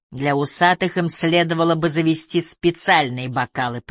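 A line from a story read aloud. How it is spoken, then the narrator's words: Grumbling. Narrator (Russian): пробурчал он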